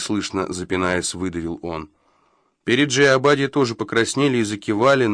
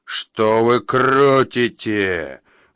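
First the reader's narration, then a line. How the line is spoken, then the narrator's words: Growled. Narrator (Russian): взрычал он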